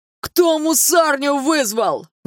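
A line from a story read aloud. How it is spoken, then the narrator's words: Thug shouting. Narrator (Russian): закричал кто-то из гопников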